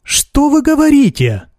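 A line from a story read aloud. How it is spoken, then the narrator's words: Exclaiming. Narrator (Russian): воскликнула Марья Гавриловна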